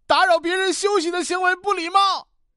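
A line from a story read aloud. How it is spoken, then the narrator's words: Loud answer. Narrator (Chinese): 小毛大声回答说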